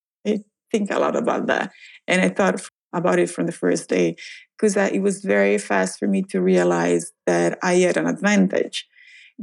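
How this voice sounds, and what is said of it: Italian accent. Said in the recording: “my accent ... I was Italian”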